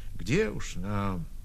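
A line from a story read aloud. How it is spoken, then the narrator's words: Quiet admission. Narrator (Russian): Кто-то сознался в этом, тихо сказав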